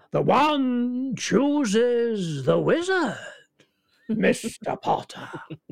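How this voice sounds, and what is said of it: High, creepy Mr. Ollivander impression. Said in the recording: “he had that sort of voice that could be very threatening and very high, and you know, a little bit creepy ... that's not a particularly great impression ... Mr. Ollivander”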